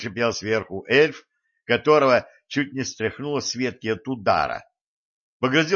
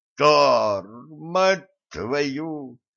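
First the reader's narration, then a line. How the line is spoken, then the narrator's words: Groan over a radio receiver. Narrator (Russian): простонал из приемника, замаскированным замочкой уха Валентина, голос полковника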